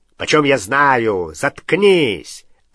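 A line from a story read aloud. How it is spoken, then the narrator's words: Barked, rough voice. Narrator (Russian): рявкнул грубый голос, второго Кэрроу, Амикуса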